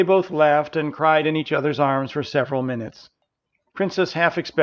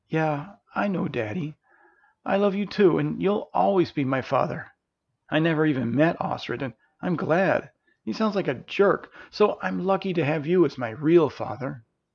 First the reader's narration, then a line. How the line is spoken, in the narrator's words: Princess felt tears welling in her eyes and softly replied